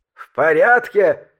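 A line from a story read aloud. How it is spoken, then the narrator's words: Frantic scream. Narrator (Russian): истошно завопил Синг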